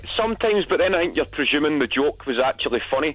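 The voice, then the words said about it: Glaswegian Scottish accent. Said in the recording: “they never understood the accent ... the Tory Glen accent of Clybank, where I'm from, is totally a lot faster”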